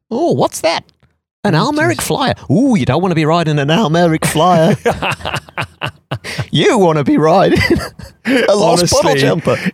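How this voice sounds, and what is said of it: Put-on Australian accent impression. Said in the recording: “great impersonation ... it doesn't have to be an Australian, but voice came out ... Whenever I do an accent, it always goes Australian”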